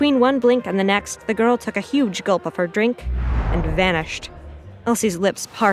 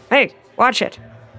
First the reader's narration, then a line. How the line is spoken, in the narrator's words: the man grumbled